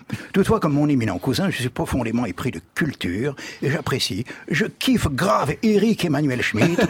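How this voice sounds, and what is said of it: Imitates another person's voice. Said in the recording (French): “je procède à une imitation approximative de Jack Lang”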